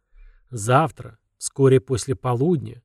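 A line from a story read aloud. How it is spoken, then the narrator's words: Echoing wolf growl. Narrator (Russian): рычание волка эхом отражалось от стен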